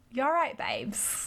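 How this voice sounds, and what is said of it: Essex accent impression. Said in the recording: “do a Gemma voice. ... Let's see if I can do it. I, I used to be able to do it. ... I'm from Essex.”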